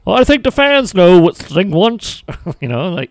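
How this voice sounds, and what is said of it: Poor imitation of an announcer. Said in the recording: “that's my Tony Schiavone impression ... that wasn't a good one ... not a good impersonation”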